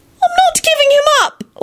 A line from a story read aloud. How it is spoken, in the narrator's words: Elizabeth suddenly wailed from beneath the pillows